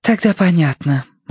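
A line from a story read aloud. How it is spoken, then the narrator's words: Relieved sigh. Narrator (Russian): облегченно вздохнула она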